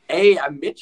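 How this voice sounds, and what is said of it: Attempted Canadian accent, poorly done. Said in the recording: “you just have to go for the Canadian accent ... Is that close at all? ... Worse. ... I was going for Canada.”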